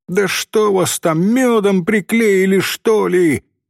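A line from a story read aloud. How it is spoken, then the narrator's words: Shouted. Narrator (Russian): крикнула она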